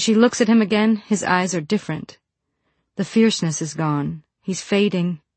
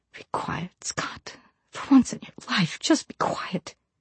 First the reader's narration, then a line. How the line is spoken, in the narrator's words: She whispers